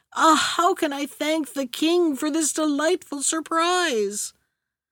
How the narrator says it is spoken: with the utmost tenderness, cried

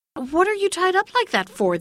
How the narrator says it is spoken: they exclaimed

